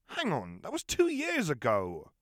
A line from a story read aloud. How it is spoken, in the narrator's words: Ron exclaimed